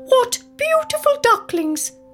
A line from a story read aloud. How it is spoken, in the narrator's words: cackled in her very high-pitched voice